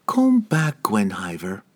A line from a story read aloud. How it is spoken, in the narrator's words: she said too calmly